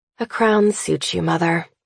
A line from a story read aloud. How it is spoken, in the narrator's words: I sigh